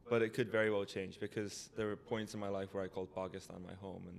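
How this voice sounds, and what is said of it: North American accent. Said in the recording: “my American Canadian accent”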